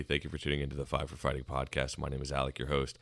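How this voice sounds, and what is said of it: Slightly hoarse, fading voice. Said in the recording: “I'm kind of losing my voice a little bit today”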